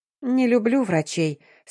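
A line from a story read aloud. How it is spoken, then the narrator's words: Grimacing sigh. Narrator (Russian): скривилась Дарина вздохнула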